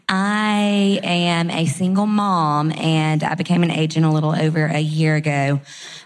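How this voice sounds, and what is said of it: Alabama Southern accent. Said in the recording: “I'm from Huntsville, Alabama. Don't make fun of my accent. Might say y'all a few times.”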